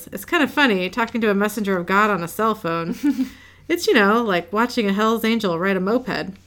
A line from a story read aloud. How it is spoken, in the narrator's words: Dean chuckles and says